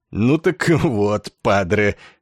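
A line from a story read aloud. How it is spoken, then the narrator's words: Creaky chuckle. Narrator (Russian): подполковник Корн опять скрипуче хохотнул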